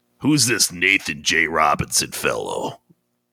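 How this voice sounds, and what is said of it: Imitates another person's voice. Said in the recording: “talks like Humphrey Bogart, kind of ... That's a good impression.”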